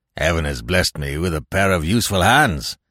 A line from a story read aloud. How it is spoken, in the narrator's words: said the seaman, grimly